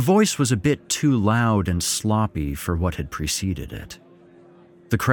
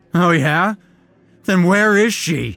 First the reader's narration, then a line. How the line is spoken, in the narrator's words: someone shouted